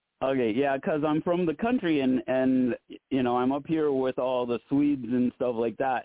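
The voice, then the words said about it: Southern-sounding rural American accent. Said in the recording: “your accent does sound Southern when you have your regular voice ... rural ... a Southern type of accent”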